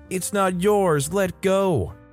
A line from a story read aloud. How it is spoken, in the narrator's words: yelling